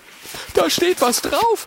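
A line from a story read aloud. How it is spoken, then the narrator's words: Excited call. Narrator (German): ruft Oskar aufgeregt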